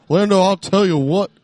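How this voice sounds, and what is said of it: Hank Hill cartoon character impression. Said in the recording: “his Hank Hill impression... You did a pretty good one.”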